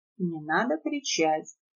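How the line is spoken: Quiet, into the ear. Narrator (Russian): тихо сказал неприметный мужчина Надежде на ухо

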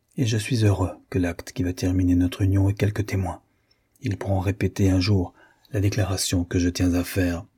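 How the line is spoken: Low voice. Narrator (French): ajouta, parlant à voix basse

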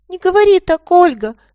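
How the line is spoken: Thin squeaky voice. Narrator (Russian): пропищал он тоненьким голоском

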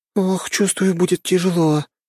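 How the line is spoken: Weary moan. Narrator (Russian): простонала Лена

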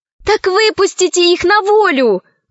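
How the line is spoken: Exclaiming. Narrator (Russian): воскликнула Алиса

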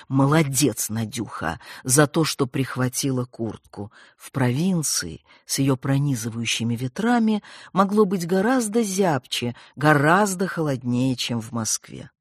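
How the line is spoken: Whispered self-praise. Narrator (Russian): Надежда шепотом хвалила себя

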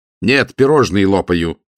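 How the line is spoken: Snapping retort. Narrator (Russian): огрызнулся Матео

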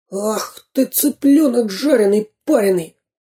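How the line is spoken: Hissed. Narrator (Russian): прошипел Дырка

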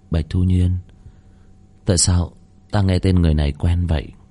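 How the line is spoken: Group muttering. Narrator (Vietnamese): Đám tiên nhân lẩm bẩm

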